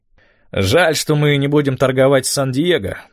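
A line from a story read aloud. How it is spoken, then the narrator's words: Grumbling. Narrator (Russian): проворчал Эд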